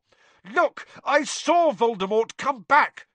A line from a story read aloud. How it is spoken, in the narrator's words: Harry shouted